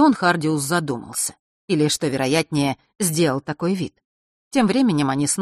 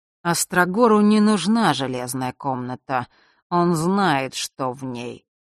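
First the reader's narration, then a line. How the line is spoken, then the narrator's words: Slow reminiscing drawl. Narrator (Russian): протянул прадед, будто что-то припоминал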